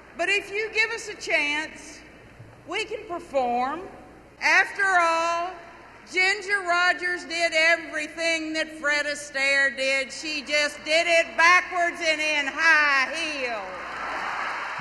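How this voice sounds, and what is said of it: Texas accent. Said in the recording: “what a real Texas accent sounds like”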